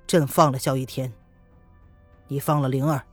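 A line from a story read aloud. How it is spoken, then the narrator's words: Cold, demanding. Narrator (Chinese): 子儿冲着叶轩寒冷冷的质问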